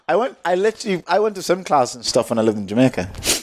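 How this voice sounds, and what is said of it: Irish accent shifting to Jamaican. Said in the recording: “You drop into your accent when you say Jamaica. ... You go straight from Irish to like Jamaican and back to”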